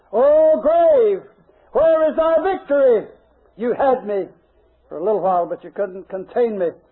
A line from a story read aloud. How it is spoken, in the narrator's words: Those who are buried and raised incorruptible shout their cry of triumph